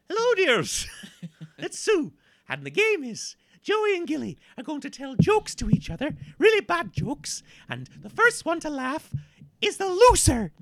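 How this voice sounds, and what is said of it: Generic Sue host character voice. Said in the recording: “I can't do her voice. It's better if I just do a generic Sue.”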